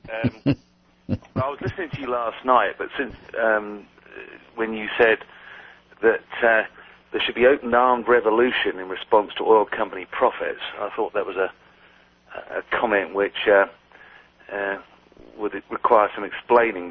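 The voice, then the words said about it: London English accent. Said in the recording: “as you can tell by the accent, not originally from around here ... from London”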